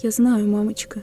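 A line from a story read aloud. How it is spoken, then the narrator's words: Quiet tearful reply. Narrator (Russian): тихо ответил … офицер плачет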